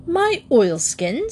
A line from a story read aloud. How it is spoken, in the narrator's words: said Paddington haughtily